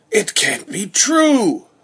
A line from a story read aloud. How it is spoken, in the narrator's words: cried Mr